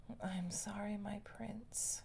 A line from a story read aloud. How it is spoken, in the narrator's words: she whispered